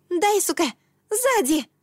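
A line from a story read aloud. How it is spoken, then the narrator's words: Urgent shout. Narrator (Russian): закричала я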